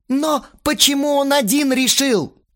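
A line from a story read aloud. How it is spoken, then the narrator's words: Yelled again. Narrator (Russian): Снова заорал Астарот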